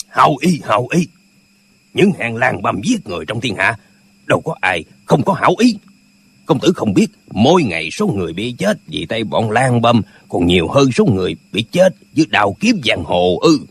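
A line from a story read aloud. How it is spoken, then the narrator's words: Angry. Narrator (Vietnamese): Bình Nhất Chỉ lại tức giận nói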